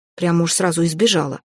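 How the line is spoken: Grumbling. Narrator (Russian): пробурчала я

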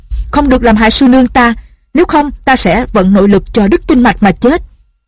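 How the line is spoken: Shouted. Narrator (Vietnamese): Lệnh Hồ Xuân quát to

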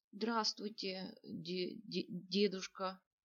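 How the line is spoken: Trembling voice. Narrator (Russian): дрожащим голосом поздоровался парень

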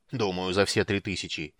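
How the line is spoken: Angry grumble. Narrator (Russian): сердито буркнул Флинт

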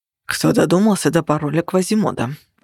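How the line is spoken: Grumbling. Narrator (Russian): пробурчал Нигер

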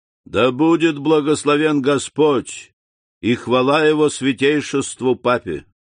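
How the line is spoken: Loud and clear. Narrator (Russian): произнес он громко и отчетливо

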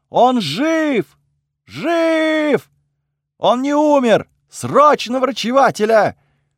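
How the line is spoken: Shouting. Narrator (Russian): закричала кому-то

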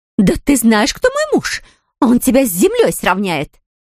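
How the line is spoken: Shrieking. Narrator (Russian): визжала драконица

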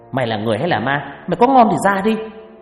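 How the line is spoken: Shouting. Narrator (Vietnamese): hét lên

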